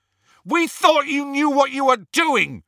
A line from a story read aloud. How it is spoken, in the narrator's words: shouted Ron